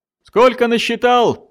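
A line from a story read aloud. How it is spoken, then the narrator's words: Shouted. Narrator (Russian): крикнул Эссен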